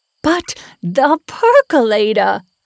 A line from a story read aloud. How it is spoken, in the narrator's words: I screamed